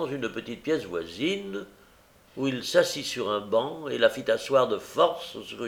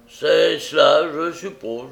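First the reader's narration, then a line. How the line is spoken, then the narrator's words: Growling. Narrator (French): gronda Sykes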